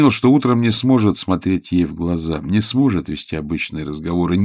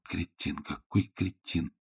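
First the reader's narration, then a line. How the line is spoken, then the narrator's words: Muttering. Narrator (Russian): бормотал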